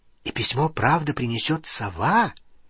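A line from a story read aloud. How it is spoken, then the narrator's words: Asked quietly. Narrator (Russian): тихо спросила Лили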